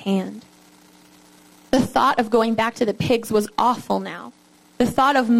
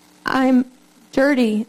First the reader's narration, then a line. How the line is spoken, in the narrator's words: the girl answered between sobs